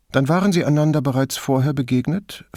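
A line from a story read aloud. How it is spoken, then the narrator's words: Plain question. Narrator (German): fragte Brunetti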